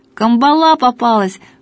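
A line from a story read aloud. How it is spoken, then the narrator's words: Shout. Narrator (Russian): выкрикнул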